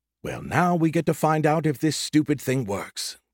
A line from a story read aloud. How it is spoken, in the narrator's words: Skippy muttered